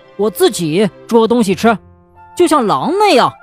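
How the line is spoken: Shouting. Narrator (Chinese): 他叫道

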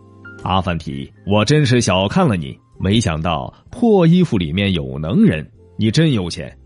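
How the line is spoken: Awkward laugh. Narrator (Chinese): 瑟里木巴依尴尬的笑了笑，说

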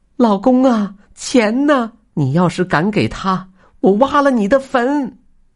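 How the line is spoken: Shouting in unison. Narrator (Chinese): 异口同声的喊

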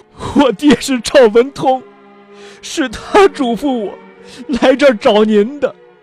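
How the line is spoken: Boy speaking while crying. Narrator (Chinese): 这少年呢，是哭着说道

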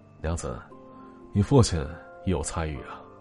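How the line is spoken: Casual offhand remark. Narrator (Chinese): 赵一章……似乎是随口说了一句

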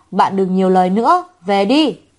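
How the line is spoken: Angry. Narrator (Vietnamese): Dương Khả Vi tức giận

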